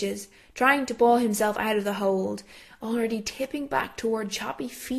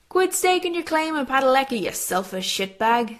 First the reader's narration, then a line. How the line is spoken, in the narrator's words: Steve laughs